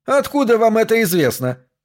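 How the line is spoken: Triumphant shout. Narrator (Russian): выкрикнул Смитбек, чтобы окончательно утвердиться в своем триумфе

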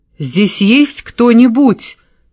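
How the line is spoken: Terrified shout. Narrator (Russian): крикнула, ощущая, как ужас пробирается по позвоночнику

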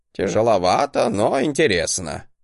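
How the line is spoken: Snorting. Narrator (Russian): хмыкнул Гринальв

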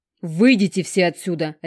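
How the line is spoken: Sharp supportive bark. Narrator (Russian): рявкнула Алекс в мою поддержку

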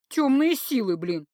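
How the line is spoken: Snapping retort. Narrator (Russian): огрызнулась я

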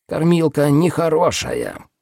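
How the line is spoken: Excited creaking. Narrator (Russian): проскрипел один из них, возбужденно

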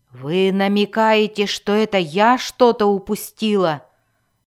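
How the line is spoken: Growled. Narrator (Russian): зарычала Мелис

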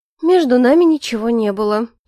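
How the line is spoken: Heavy sigh. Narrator (Russian): тяжело вздохнула Маргарита

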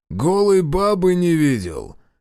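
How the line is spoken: Short guffaw. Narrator (Russian): хохотнул проклятый Трофим

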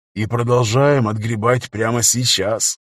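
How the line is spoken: Said gloomily. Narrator (Russian): мрачно сказал Дон

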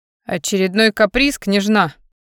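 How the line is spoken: Male snort. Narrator (Russian): хмыкнул он

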